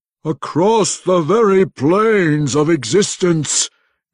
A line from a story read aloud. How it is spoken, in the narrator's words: Ertu growled